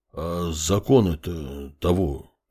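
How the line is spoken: Mumbling man. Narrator (Russian): промямлил мужчина

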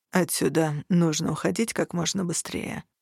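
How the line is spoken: Gloomy statement. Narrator (Russian): мрачно озвучил всеобщее мнение Хартат

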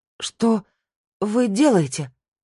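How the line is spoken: Exclaimed. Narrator (Russian): воскликнула

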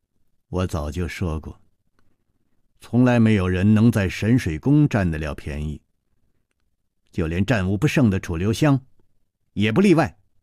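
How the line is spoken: Cold. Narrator (Chinese): 宫南燕冷冷地说

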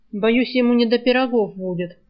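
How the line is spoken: Snorting, wry. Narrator (Russian): хмыкнул Альк

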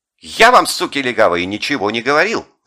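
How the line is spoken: Yelling. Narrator (Russian): заорал ручечник

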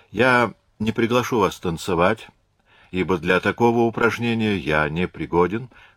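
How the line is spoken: Plain. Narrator (Russian): сказал Талейран

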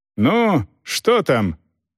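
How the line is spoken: Asked from outside. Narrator (Russian): кто-то спросил с улицы

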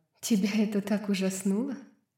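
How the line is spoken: Quiet laughing. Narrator (Russian): Тихо засмеялась она

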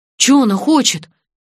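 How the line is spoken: Frightened question. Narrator (Russian): испуганно спросил Петр

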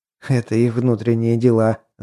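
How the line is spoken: Laughing. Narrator (Russian): засмеялся я

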